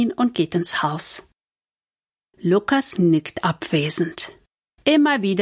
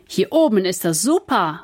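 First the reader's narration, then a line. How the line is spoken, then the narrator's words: Calling out. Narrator (German): ruft Kevin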